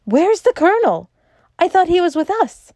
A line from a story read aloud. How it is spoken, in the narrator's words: Syme cried out like a man waking from sleep